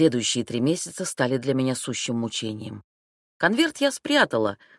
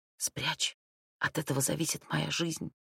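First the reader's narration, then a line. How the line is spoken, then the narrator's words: Whispered. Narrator (Russian): сестрица прошептала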